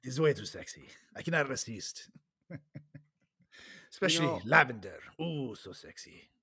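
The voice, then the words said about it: Put-on Spanish accent. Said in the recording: “Makes me speak with a Spanish accent.”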